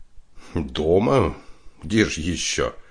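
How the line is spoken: Plain. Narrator (Russian): ответил Вадим

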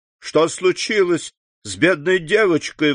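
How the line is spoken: Exclaiming. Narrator (Russian): воскликнула она

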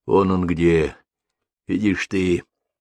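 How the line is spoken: Quiet question. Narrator (Russian): тихо спросил

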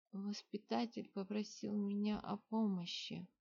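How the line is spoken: Sudden lifeless voice. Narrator (Russian): вдруг безжизненным голосом сказал Виконт

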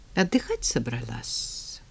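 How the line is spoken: Gentle question. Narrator (Russian): ласково поинтересовалась

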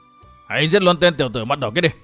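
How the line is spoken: Loud shout. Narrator (Vietnamese): Một tên hổ pháp quát lớn

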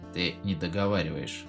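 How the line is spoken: Grim, through teeth. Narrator (Russian): мрачно процедил Алрик

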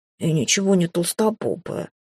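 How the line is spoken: Sullen grumble. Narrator (Russian): пробурчало, насупившись

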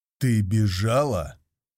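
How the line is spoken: Growled. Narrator (Russian): прорычал я

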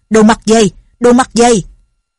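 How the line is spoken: Startled loud shout. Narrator (Vietnamese): Linh Hồ Xung giật mình quát lớn

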